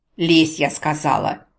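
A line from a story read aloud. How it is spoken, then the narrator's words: Exasperated bark. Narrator (Russian): не выдержав, рявкнула я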